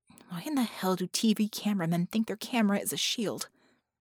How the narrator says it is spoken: Vickie confirmed that with a muttered

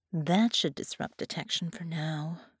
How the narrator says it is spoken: she sighed

